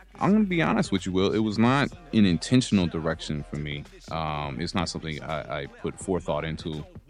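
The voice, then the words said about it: Mild American accent. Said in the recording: “you have an American accent. You're from Charlotte. ... that's the accent local to your area. But it's not particularly accentuated.”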